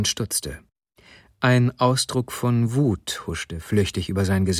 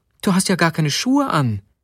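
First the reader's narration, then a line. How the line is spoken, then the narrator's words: Exclaiming. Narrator (German): rief sie aus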